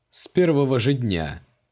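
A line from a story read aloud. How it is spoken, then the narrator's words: Mage's snort. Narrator (Russian): хмыкнул маг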